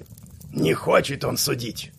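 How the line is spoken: Grumbled. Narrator (Russian): буркнул мастер Патрик

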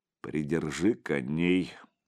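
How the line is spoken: Grumbled by older man. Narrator (Russian): буркнул старший

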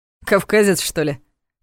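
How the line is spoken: Skeptical grunt. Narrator (Russian): хмыкнул Ваня

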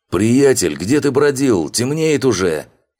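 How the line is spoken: Shout. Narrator (Russian): Крикнул Шато

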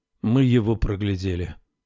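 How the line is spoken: Gloomy. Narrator (Russian): мрачно сказал Салеман

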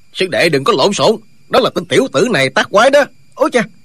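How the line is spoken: Old man shouting. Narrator (Vietnamese): Lão nhân quát lên

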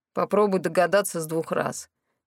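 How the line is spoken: Grumbled. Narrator (Russian): проворчал Морис

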